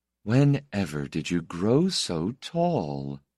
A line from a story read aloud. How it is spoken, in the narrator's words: she asked in a puzzled, musing tone